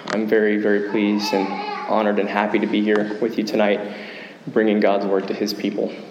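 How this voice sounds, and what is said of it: Weak, strained voice. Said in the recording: “my voice isn't as it should be ... My voice might be a little bit distracting ... my voice sounds weak”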